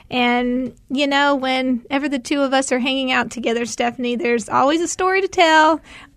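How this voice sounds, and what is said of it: Tennessee accent. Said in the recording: “where did you get that accent? It's obviously not from Arizona.”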